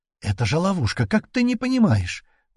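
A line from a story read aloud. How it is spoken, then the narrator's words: Desperate exclamation. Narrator (Russian): в отчаянии воскликнула Лерия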